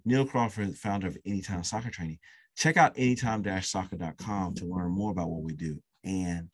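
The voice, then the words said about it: Strained, nearly lost voice. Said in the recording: “I'm almost losing my voice because this is my second podcast today”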